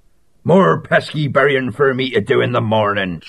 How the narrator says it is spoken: Salmon Clogs snorted

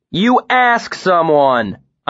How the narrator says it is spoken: I shouted

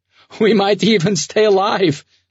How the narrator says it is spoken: laughed the musician

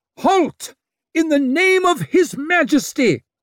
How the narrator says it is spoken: Rithinghorm pressed his mouth to the arrow loop and bellowed at the very top of his voice

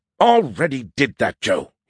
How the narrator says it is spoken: he grumbled

